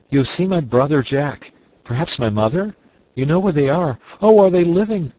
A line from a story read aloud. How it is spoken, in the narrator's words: cried Fritz